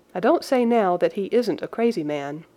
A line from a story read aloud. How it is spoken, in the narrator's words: said Sir Henry